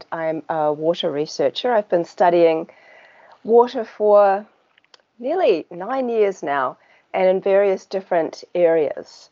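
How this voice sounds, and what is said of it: New Zealand accent. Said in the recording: “as you can probably tell by my accent, I'm from New Zealand”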